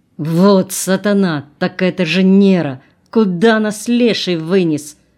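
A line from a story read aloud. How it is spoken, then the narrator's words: Gloomy growl. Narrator (Russian): Хмуро прорычал волк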